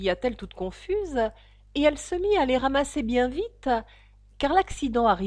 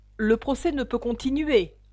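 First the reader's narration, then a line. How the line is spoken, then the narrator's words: King's grave voice. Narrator (French): dit le roi d'une voix grave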